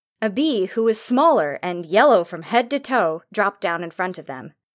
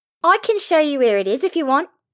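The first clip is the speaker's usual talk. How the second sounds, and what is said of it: High-pitched voice, lilting accent. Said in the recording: “said a high-pitched voice with a lilting accent.”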